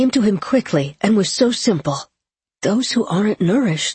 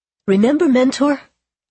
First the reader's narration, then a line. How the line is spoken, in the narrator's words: Trademaster curled his lip and laughed